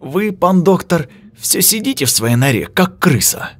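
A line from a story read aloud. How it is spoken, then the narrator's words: Heated exclamation. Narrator (Russian): запальчиво воскликнул Вильчик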